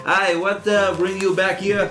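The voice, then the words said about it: Exaggerated Quebec French accent. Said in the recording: “My Quebec accent is going to get more exaggerated.”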